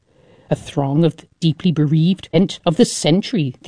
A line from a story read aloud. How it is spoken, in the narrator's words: the organizers exclaimed